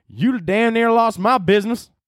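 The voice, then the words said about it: Put-on Southern US accent. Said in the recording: “I don't know why I have like a Southern accent.”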